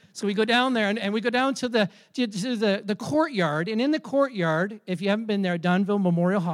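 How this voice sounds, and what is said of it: Usual voice. Nothing is said of it.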